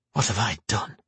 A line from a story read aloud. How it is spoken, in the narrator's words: he whispered to himself